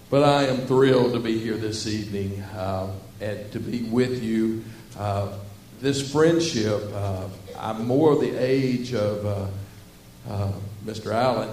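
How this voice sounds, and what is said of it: Southern Arkansas accent. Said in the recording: “wasn't anywhere near where I grew up in Southwest Arkansas. I grew up talking like this, y'all.”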